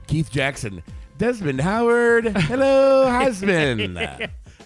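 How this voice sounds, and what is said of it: Decent impression of a sportscaster. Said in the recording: “That's not a bad impression. ... That's not bad.”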